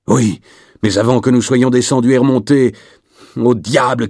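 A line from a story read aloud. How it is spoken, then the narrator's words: Shouting. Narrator (French): cria-t-il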